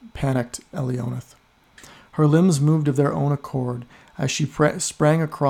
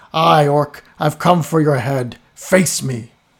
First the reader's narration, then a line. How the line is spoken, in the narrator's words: she heard a shout from the distance